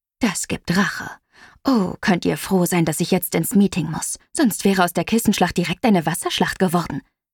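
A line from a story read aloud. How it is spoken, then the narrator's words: Mischievous hiss. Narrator (German): zischte Mama mit einem schelmischen Grinsen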